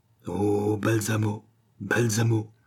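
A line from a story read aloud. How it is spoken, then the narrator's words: Sighing murmur. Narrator (French): murmura le docteur avec un soupir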